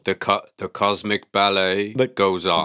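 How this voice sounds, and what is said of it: Spock character impression. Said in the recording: “That was my Spock impression. ... That was beautiful Spock impression.”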